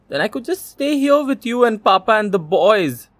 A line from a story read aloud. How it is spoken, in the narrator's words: cried Urmila